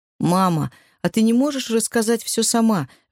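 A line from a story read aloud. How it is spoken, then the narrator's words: Pleading. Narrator (Russian): взмолился Брайан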